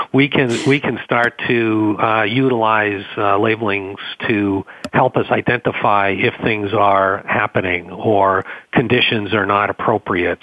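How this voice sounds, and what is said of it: Boston accent. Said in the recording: “my my Boston accent will come out”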